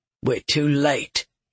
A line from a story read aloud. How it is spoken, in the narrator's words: Loth growled